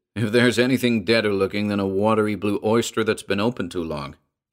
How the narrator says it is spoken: he said

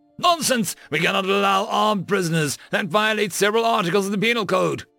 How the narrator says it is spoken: Estelle shouted back

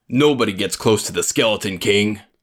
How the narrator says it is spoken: he growled

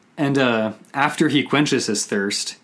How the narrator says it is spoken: he shouts

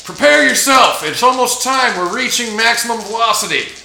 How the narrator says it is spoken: Reed yells out

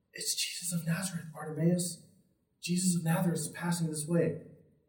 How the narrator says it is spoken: someone whispers to him

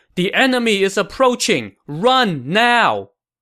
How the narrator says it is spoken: One of the naval officers shouted to Cheng Ji

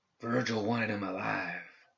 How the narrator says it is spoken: Lucas whispered

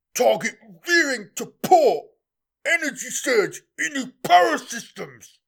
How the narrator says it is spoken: croaked the contagion's toad-bodied helmsman

